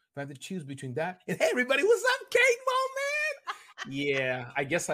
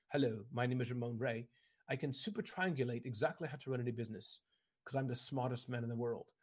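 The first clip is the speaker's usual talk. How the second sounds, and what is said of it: Put-on British accent. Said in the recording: “And you have a British accent.”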